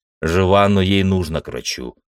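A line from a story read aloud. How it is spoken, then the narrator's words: Dry. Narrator (Russian): сухо ответил я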